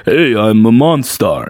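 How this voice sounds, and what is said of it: Imitates another person's voice. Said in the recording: “all the Monstars had like a Sylvester Stallone kind of like thing going on ... they would they sound like that ... do a Stallone impression”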